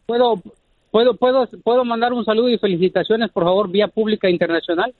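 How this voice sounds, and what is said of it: Formal radio announcer voice. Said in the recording (Spanish): “Tiene voz de locutor ... ¡Es locutor este vato! ... Es muy formal.”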